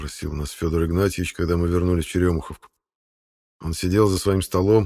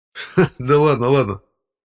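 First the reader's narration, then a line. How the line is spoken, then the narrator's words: Laughing. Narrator (Russian): засмеялся участковый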